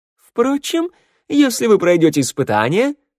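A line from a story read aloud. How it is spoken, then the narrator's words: Cheerful interjection. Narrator (Russian): бодро вклинился красавчик Валет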